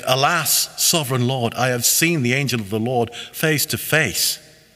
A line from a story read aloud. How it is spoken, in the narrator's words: he exclaimed